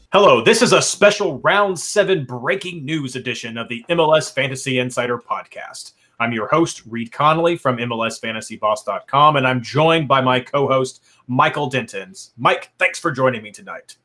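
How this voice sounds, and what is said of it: Mock serious newscaster voice. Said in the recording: “a bit more of a serious intro with my newscaster voice ... maybe that's sort of like a pseudo Batman villain newscaster”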